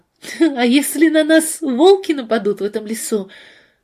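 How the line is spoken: Loud laugh, then speech. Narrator (Russian): Надежда громко засмеялась и сказала

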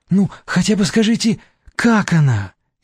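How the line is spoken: Frightened question. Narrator (Russian): испуганно спросила Вера

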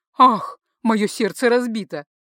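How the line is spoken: Laughing. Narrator (Russian): Смеясь, маг

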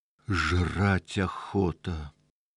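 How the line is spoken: Angry. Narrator (Russian): злобно сказал Калек

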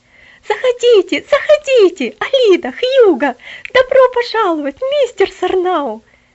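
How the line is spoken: Warm joyful exclamation. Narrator (Russian): С сердечной радостью воскликнула она

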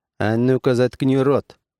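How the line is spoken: Sharp command. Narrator (Russian): резко приказал он

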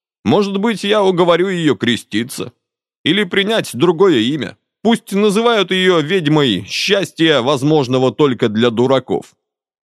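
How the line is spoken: Girl's trembling voice, near tears. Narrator (Russian): Девочка принялась настойчиво отговаривать его, и голосок у нее стал слегка дрожать, предвещая неминуемые рыдания

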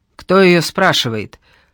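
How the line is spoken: Deafening male bark. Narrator (Russian): Рявкнул он так, что у меня в ухе заложило

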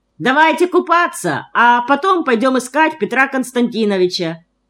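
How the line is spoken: Shouted. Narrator (Russian): крикнул Вовка

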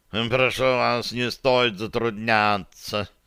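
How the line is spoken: Purring cat. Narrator (Russian): промурлыкал кот да Винчи

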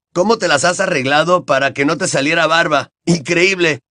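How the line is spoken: Shouting. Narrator (Spanish): gritó George

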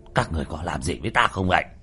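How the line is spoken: Angry shout. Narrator (Vietnamese): Hoa Thanh dựng râu trợn mắt quát lên

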